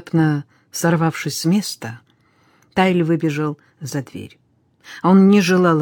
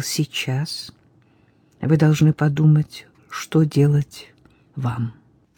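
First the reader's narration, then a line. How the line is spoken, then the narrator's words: Softly. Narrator (Russian): мягко промолвил священник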